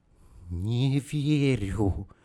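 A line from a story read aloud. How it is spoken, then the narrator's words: Breathed out. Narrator (Russian): Выдохнула она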